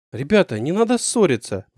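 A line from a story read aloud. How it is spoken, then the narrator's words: Frightened plea. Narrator (Russian): попросила Лиза, испуганно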